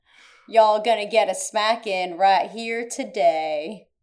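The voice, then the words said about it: Bad imitation of 90s rap. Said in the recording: “doing a bad imitation of a 90s rap”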